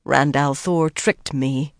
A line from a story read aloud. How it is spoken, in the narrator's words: Avienda muttered sullenly